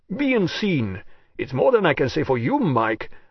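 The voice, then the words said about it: Rich Jamaican accent. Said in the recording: “the rich treacle of a Jamaican accent”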